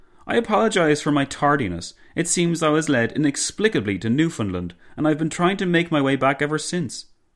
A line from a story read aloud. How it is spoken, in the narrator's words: the Greek premier exclaimed